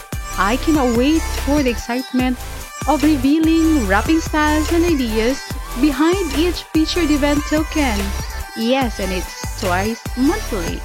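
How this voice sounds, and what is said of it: Thrilled, excited voice. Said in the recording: “as you can hear it in my voice, I am thrilled about it.”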